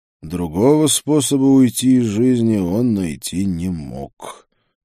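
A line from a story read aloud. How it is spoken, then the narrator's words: Gloomy. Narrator (Russian): мрачно сказал я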